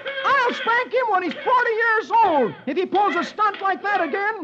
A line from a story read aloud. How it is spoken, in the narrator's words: Dagwood shouts